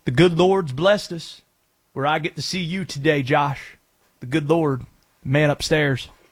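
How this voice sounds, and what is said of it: Dabo Swinney impression. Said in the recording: “Dabo impressions ... best Dabo impression”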